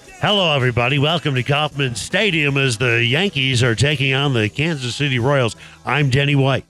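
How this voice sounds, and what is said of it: Sports broadcaster announcer voice. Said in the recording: “you want to do a broadcaster voice? ... I think that's a great voice. But I think that's a different voice than like the DJ, like the hyper DJ”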